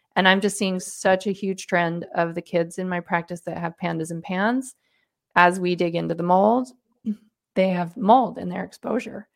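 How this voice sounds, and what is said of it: Strained, fading voice. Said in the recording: “excuse me, my voice is going.”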